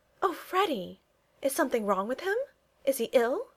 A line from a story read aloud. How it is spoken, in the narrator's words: she asked anxiously